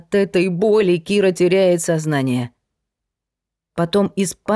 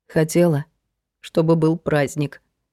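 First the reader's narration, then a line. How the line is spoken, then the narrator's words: Quiet, starting to cry. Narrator (Russian): тихо ответила Кира и заплакала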